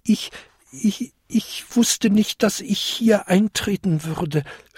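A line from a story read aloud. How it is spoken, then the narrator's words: Stammering small creature. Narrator (German): stammelte der kleinste Winterkobold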